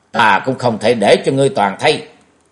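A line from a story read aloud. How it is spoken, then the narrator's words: Shouting. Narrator (Vietnamese): Thạch Vật cũng quát lên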